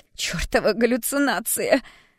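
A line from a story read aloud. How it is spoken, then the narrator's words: Desperate shout, young woman. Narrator (Russian): В отчаянии закричала девушка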